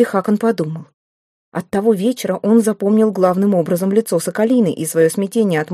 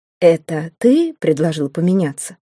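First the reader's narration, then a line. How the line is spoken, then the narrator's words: Plain. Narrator (Russian): спросил Местина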